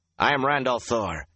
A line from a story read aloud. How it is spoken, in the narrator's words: he said harshly